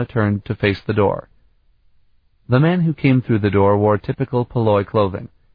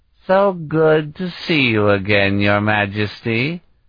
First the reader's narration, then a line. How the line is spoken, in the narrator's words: he said in his drink-slurred voice